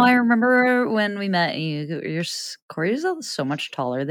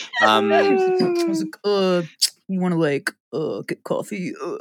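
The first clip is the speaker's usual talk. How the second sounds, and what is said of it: Imitates another person's voice. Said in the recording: “That is the worst impression of me or anyone ever.”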